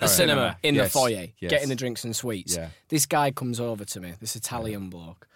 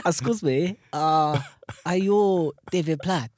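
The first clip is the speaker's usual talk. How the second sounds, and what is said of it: Attempted Italian accent. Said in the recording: “Now I'm gonna attempt an Italian accent now.”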